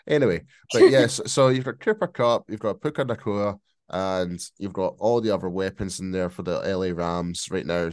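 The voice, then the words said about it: Scottish accent. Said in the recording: “my bloody Scottish accent ... That and the cold.”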